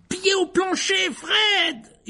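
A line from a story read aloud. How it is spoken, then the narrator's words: Yelling. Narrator (French): hurla Ron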